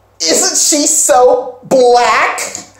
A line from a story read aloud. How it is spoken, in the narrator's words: One girl says real loudly